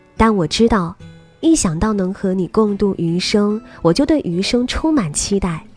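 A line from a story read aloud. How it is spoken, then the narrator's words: Tender. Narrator (Chinese): 他温柔的说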